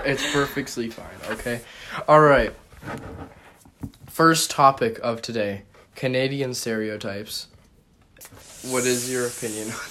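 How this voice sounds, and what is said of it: Sick, rough-sounding voice. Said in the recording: “I sound terrible ... I cough ... I am kind of sick still”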